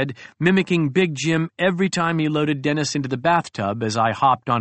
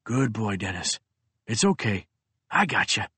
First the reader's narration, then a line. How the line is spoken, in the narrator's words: whispered